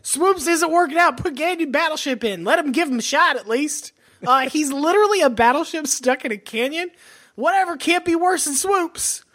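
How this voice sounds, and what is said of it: Put-on Texas accent. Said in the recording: “that was my Texas impression.”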